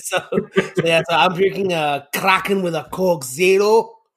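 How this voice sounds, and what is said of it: Cartoon character's accented voice. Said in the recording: “why the accent? ... Because apparently Glom Gold. ... Flint Heart Glom Gold.”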